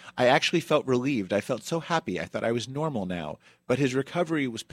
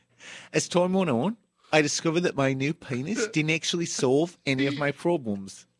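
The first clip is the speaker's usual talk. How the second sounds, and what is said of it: Put-on Australian accent. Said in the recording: “I'm going to do this in an Australian accent.”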